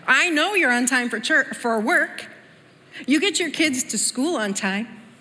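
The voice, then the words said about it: Scolding mom voice. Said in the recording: “my best mom voice”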